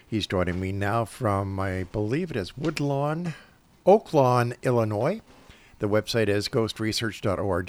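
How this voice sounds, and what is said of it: Raspy, hoarse voice from a cold. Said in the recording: “my raspy voice and my cold tonight”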